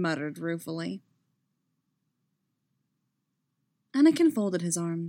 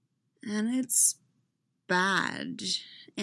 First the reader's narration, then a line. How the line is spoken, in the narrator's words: Anakin said slowly